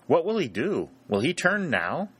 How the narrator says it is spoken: said Sherburne anxiously to Harry

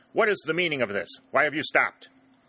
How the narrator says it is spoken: he demanded fiercely

